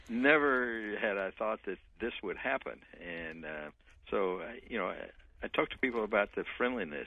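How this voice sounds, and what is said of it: Texan accent. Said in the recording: “As you can tell from my accent, I'm from Texas.”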